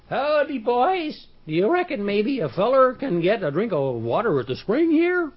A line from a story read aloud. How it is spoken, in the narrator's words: Poetry said in the quavery voice of an old man